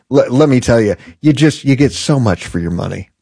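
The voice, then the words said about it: Sarcastic tone. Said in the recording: “Can you hear the sarcasm in my voice?”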